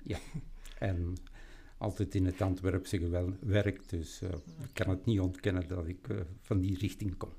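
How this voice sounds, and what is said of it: Antwerp Flemish accent. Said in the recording (Dutch): “bij Antwerpen. Vandaar het accent.”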